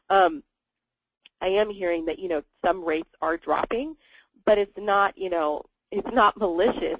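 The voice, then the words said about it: Voice sounds sick and strained. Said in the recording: “apologize for my voice, I'm a bit under the weather.”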